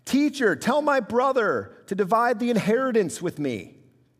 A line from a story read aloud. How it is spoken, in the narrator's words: yelling out